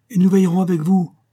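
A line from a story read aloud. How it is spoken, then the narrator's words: Two young people exclaiming. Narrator (French): s'écrièrent les deux jeunes gens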